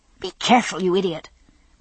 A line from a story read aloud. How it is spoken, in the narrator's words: Brianna snapped furiously at Roger